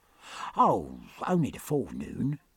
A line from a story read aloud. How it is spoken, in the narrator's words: said Killick in a comforting tone